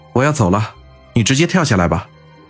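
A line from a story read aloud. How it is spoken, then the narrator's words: Cold. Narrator (Chinese): 云峰冷冷的说道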